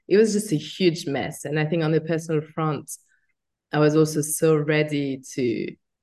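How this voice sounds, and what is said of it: French accent. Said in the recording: “obviously by my accent, I was born in France”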